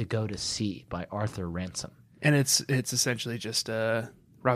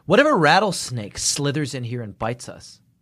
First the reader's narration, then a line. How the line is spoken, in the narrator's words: asked Haley